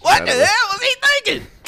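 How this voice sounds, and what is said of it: Poor imitation of another person's voice. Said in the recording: “That was a horrible Chris Rock impersonation.”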